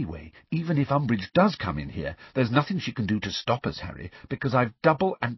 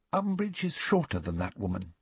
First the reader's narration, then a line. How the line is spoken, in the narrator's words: she said quietly